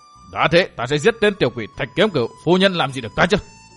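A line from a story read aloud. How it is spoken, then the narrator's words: Jealous shout. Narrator (Vietnamese): Tư Mã Xanh hơi nổi ghen quát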